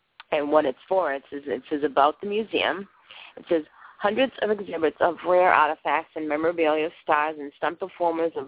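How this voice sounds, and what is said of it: Tired, hoarse, fading voice. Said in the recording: “I'm extremely exhausted tonight ... I think I'm losing my voice a little bit here. I did a lot of talking today”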